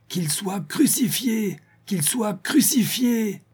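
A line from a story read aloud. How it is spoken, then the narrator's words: Frenzied yelling. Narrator (French): un frénétique vociférait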